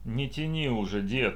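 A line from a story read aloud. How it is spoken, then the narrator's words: Grumbling. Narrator (Russian): пробурчал Александр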